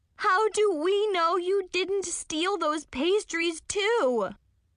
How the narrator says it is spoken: Chloe shrieked

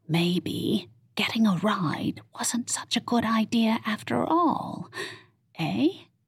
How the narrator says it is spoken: Nance whispered in Lexi's ear

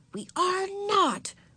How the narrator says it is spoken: whispered Beezus furiously

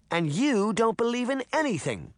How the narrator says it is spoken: the little girl snapped

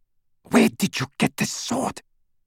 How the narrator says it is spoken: she whispered to Greyback

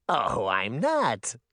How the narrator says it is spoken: the mayor said with a twisted giggle

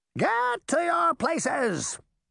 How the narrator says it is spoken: the Queen shouted

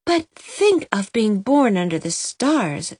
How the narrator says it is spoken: said Myra dreamily

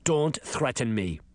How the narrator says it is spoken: the principal growled

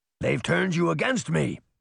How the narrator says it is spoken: roared

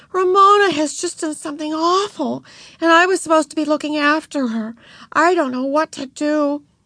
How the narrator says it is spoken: cried Beezus

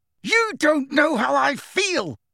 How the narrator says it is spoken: Harry roared

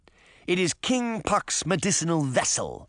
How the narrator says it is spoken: Moth said indignantly

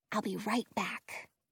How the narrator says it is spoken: I whisper to Prince

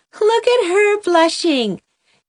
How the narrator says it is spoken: giggled Mamie Taylor

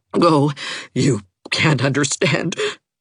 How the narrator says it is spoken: gasped Catherine

